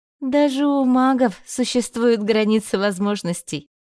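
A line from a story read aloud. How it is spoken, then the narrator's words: Laughing. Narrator (Russian): рассмеялась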